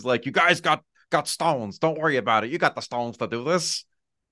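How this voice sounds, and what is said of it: Unconvincing John Tortorella impression. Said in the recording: “Well, he didn't sound like that. You got to work on your Torts impression”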